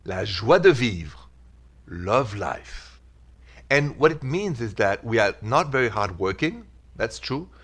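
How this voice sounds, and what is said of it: Thick French accent. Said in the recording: “French have many flaws, thick accent”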